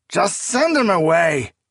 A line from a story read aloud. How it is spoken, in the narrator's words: Sauban cried